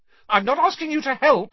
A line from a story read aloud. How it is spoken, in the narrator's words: Hermione snapped